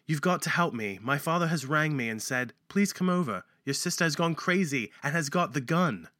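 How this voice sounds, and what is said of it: Put-on British accent. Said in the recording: “So should I read this with my British accent? ... I'd like to thank the Spice Girls for teaching me how to speak British. ... With a British accent.”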